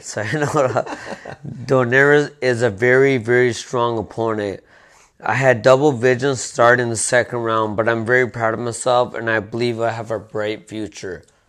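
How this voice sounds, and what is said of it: Put-on Russian accent. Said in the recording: “your Russian accent for a little Japanese guy”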